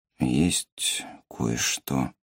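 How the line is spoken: Quiet. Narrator (Russian): начал он тихо

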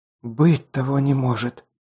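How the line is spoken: Breathed out. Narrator (Russian): выдохнула она

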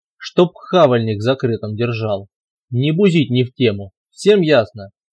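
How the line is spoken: Growled. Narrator (Russian): рыкнул он

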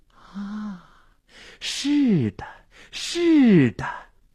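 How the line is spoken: Entranced murmur to himself. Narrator (Chinese): 心醉神迷的喃喃自语

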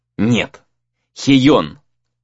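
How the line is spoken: Angry reply. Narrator (Russian): зло ответил друг

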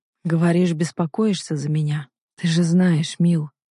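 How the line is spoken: Lifeless voice. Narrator (Russian): произносит безжизненным голосом

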